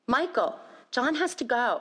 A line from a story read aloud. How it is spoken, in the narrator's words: I pleaded